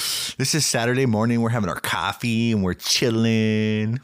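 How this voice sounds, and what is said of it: Usual voice. Nothing is said of it.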